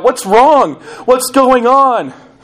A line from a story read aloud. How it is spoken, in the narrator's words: The younger brother, panicked at the behavior of his older sibling, cried out